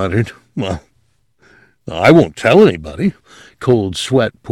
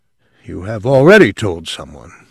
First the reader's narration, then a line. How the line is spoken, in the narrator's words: the old man said coldly